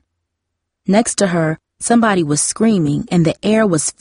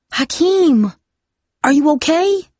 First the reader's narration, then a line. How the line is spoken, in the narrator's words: she gasped